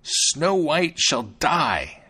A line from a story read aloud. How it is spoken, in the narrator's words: she exclaimed